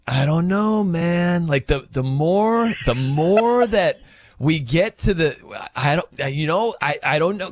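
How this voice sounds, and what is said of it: Imitates another person's voice. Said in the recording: “my Patty impression ... That's pretty good. You got the mannerisms down”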